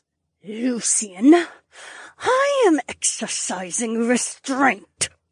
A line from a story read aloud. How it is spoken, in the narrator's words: Edeny snarled through clenched teeth